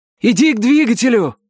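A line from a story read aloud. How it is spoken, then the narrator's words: Shouted. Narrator (Russian): крикнул я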